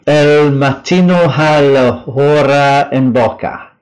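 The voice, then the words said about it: Italian phrase in Spanish accent. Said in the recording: “I think I've just done it with a Spanish accent”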